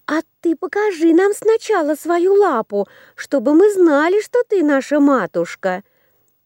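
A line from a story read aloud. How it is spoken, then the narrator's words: Shouting children. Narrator (Russian): Закричали козляточки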